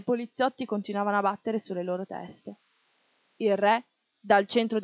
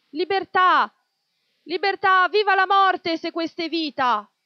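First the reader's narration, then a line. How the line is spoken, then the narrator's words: Men shouting from outside. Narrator (Italian): gli uomini da fuori continuavano a gridare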